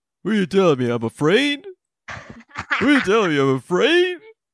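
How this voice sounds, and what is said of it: Good impression of Rocky's voice. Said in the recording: “your Rocky impression is really good”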